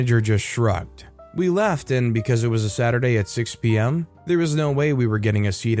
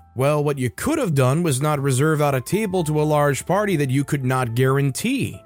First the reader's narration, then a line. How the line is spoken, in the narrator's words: snapped a little and said sharply